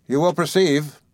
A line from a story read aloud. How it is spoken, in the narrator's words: said Templeton